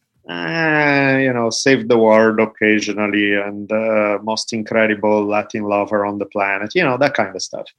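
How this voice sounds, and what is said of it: Slight Italian accent. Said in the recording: “I hear a trace of an accent, just a slight trace ... I just have a tad of an Italian accent ... my accent has never gone away”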